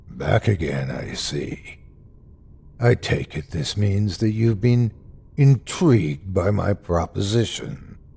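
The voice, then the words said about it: Deep voice. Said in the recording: “Its deep voice seemed to come from every direction”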